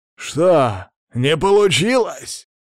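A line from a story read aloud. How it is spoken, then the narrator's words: Excited exclamation. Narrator (Russian): Азартно воскликнул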